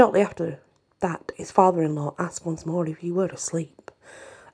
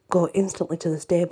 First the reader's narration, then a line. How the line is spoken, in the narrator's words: she said